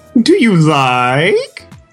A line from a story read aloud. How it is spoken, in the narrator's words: Maddie purred